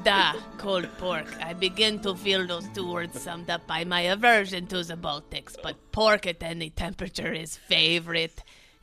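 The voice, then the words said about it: Put-on foreign accent. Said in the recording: “pick the accent of your choosing and read a little bit”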